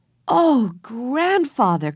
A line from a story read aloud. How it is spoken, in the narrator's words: cried Jessie